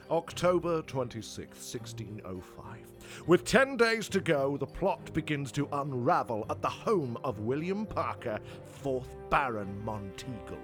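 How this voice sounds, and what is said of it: Dramatic narrator voice. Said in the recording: “do the narratey voice”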